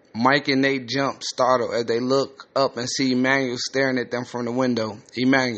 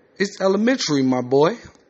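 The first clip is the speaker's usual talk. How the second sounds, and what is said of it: Put-on British accent. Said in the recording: “a British accent”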